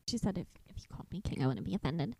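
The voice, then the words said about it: Very feminine, submissive imitated voice. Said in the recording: “my impersonation of you and your very feminine, submissive voice”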